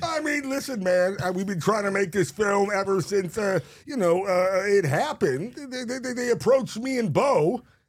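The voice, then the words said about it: Jeff Bridges impression. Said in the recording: “Jeff Bridges, that's good.”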